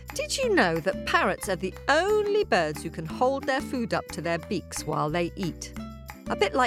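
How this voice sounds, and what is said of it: Usual voice. Nothing is said of it.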